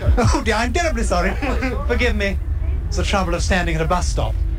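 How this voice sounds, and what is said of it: Posh English accent. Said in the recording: “his accent was, I mean, he's posh”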